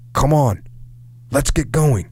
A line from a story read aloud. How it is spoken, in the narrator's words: John yelled again